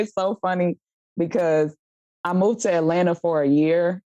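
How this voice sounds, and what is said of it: Kansas City accent. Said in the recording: “you had an accent ... the Kansas City accent”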